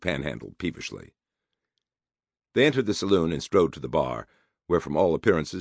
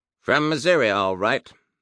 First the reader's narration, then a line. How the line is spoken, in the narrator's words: said wearily